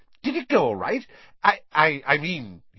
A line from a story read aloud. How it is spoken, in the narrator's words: he faltered